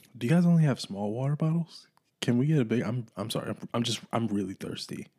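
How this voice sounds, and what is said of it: Dry, hoarse voice. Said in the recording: “my voice is just ashy ... It's dry. I've been screaming all day.”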